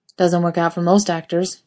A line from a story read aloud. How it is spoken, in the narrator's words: he said flatly